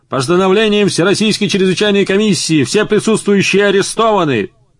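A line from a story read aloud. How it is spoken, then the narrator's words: Loud barked command. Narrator (Russian): один из них гаркнул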